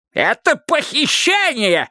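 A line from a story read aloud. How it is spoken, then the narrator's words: Shrill squeal. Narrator (Russian): завизжал он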